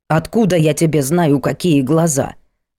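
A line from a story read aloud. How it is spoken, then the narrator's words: Grumbling. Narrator (Russian): заворчала Полина Юрьевна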